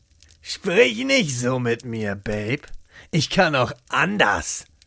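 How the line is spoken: Angry hiss back. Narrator (German): fauchte Rainer zurück

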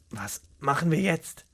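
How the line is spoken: Near-whispered question, man. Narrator (German): fragte er leise, seine Stimme kaum mehr als ein Flüstern

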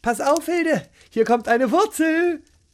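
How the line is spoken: Calling out. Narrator (German): rief Gesine

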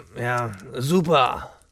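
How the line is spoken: Murmured. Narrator (German): murmelte er

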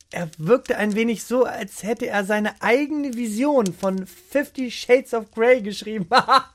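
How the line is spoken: Giggling. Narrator (German): Lea kicherte und fügte hinzu

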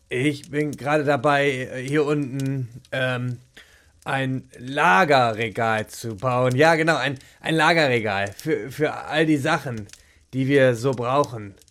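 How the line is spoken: Stammering, trying to convince. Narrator (German): stammelte Jochen und versuchte, so überzeugend wie möglich zu klingen

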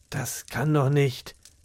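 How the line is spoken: Murmur. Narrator (German): murmelte Jochen

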